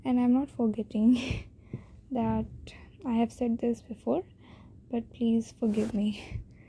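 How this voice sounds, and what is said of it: Indian-accented English. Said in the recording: “my accent is very bad, perhaps typical Indian accent”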